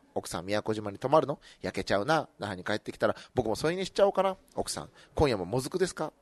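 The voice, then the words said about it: Whispered delivery. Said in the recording (Japanese): “ささやき”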